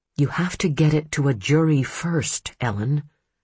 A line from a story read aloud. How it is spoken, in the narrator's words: she muttered